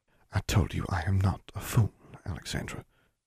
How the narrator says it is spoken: she said quietly

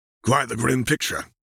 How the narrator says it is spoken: grunted, a deep frown marring his features

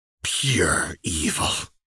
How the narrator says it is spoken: she spat

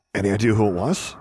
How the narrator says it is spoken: he asked hoarsely

